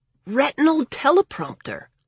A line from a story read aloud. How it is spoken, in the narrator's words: Lawrence gasped, looking actually scared of her